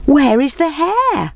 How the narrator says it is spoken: They called out

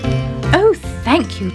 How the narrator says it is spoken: chirped Robin

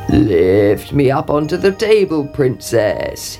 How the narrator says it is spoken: he croaked

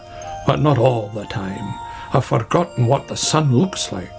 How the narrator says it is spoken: grumbled Badger

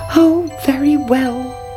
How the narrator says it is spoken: cried the princess

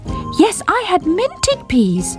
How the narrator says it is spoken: repeated Squeak, determined not to be ignored

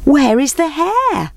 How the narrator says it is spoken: They called out

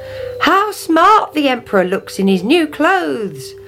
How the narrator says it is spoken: they cried

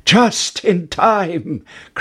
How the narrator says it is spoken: cried Jack

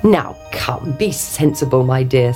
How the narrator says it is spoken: said the king

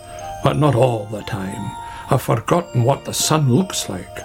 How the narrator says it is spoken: grumbled Badger

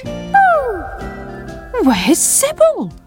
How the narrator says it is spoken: cried Sam

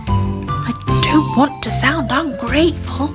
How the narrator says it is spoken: he whispered

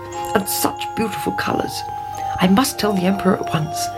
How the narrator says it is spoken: he muttered

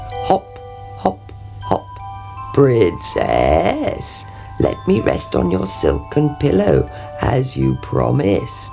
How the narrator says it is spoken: he croaked

